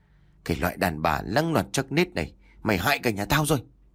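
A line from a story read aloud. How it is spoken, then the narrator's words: Hissing through teeth. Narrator (Vietnamese): ông Phan rít qua kẽ rằng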